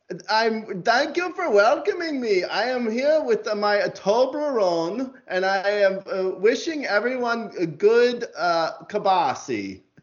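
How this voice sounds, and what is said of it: Exaggerated put-on foreign accent. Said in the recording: “when you do an intro and it calls for an accent, you know ... is going to really go for it”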